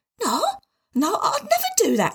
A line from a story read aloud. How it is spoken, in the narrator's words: squeaked Tim